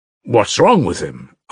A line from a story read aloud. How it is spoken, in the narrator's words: asked Alyosha